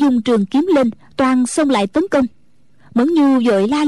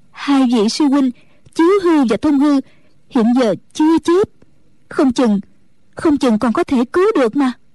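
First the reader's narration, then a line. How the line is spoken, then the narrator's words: Trembling reply. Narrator (Vietnamese): Mẫn Nhu run run đáp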